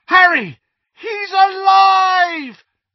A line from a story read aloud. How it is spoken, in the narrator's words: The yell of shock